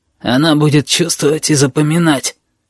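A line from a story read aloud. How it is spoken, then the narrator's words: Hoarse explaining voice. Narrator (Russian): поясняет хриплый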